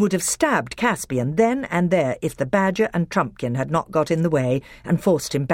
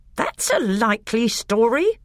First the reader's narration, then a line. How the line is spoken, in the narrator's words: growled Nicobrick